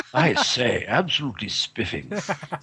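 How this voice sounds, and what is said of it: Put-on posh English accent. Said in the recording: “give us an English accent. And as long as it hasn't come from Mary Poppins”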